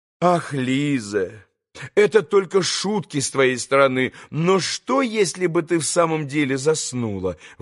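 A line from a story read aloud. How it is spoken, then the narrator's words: Exclaiming. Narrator (Russian): воскликнула госпожа Хохлакова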